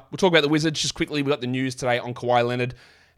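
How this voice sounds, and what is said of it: Congested, blocked-up nasal voice. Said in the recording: “I'm a little bit congested, a little bit sick, so if my voice sounds a bit funny ... it's a little bit blocked up here.”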